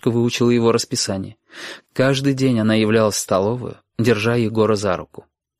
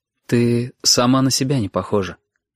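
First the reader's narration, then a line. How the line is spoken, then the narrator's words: Quiet. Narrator (Russian): тихо говорил Егор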